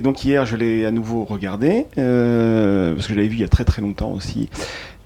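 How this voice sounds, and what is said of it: Spanish accent. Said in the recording (French): “mon accent espagnol”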